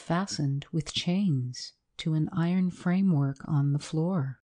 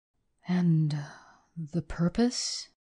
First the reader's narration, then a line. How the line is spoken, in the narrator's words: gasped the perspiring clerk